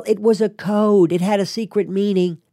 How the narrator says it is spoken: wanted to yell

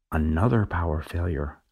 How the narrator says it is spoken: I whisper back right away

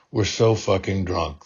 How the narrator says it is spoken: hostess slurred into the pillow

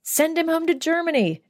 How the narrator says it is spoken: shouted Shlomo

